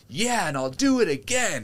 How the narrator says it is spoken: he shouts

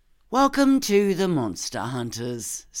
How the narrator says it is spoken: Sprig said dryly

